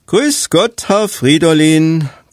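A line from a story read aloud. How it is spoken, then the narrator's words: Cheerful greeting. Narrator (German): grüßte Till fröhlich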